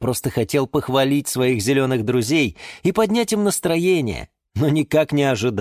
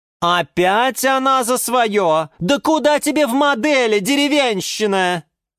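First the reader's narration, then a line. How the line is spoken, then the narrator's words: Shrieking. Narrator (Russian): завопила из своего кашпо орхидея Галатея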